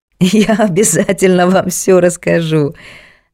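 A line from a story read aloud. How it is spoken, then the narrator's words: Laughing. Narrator (Russian): засмеялся Васильев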